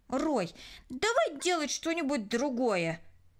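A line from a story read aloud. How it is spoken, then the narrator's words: Irritated. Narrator (Russian): раздраженно произнесла Кристина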